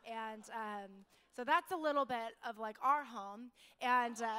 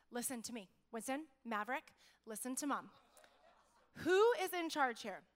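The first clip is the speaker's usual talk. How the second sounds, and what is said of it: Stern, commanding mom voice. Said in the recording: “my real, like, I'm in charge mom voice.”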